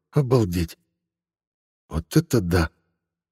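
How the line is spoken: Breathed out. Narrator (Russian): выдохнул

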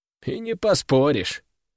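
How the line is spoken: Prince's wry snort. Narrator (Russian): хмыкнул князь

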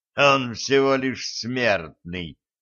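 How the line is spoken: Contemptuous snort. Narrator (Russian): Презрительно хмыкнул Перун

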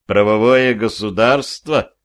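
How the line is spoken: Skeptical snort. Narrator (Russian): хмыкнул я

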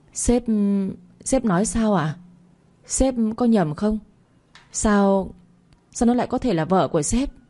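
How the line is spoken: Trembling, disbelieving question. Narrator (Vietnamese): bà Bích, khuôn mặt tái xanh, dường như không tin nổi, run rẩy hỏi lại

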